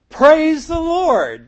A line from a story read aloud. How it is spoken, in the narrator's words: the man shouted again